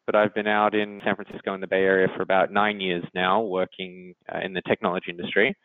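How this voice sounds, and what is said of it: Australian accent. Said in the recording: “I'm Australian, if you can't uh, tell from my accent”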